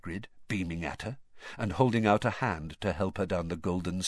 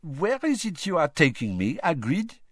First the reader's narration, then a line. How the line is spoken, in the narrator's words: she said playfully